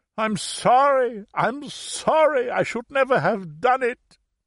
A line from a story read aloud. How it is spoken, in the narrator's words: his tears apparently blinding him as he kept wailing